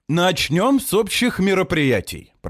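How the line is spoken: Suppressing laughter. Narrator (Russian): продолжаю я, стараясь не рассмеяться

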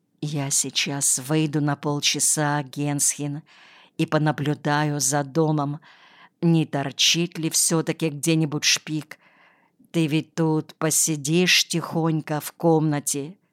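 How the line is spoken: Whispering. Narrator (Russian): прошептала

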